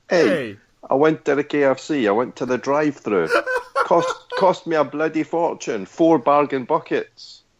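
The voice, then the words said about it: Put-on Scottish-tinged Italian accent. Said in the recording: “in an Italian accent ... your accent was even better ... It's like it's a Scottish-Italian”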